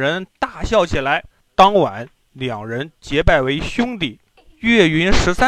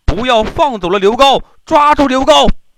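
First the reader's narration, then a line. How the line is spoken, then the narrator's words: Soldiers shouting. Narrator (Chinese): 金兵在大喊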